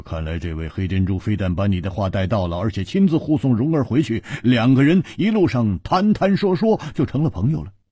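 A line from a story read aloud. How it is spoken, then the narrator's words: Laughing. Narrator (Chinese): 胡铁花笑着说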